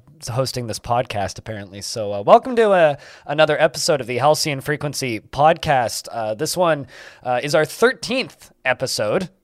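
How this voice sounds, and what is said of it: Hoarse, strained voice. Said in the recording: “losing my voice. I streamed for 16 hours last night.”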